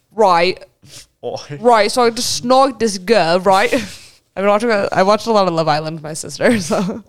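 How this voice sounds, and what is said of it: Put-on British accent. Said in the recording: “Me and ... are going to talk in a British accent the entire time.”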